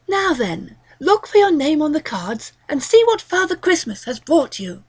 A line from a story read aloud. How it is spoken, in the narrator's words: Braxton exclaimed